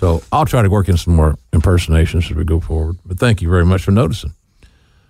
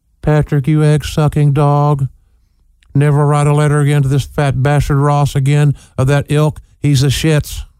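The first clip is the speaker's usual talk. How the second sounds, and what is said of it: Impression of Terry Funk. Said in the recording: “impersonations of Gordon Solie, Uh uh-uh. uh Terry Funk”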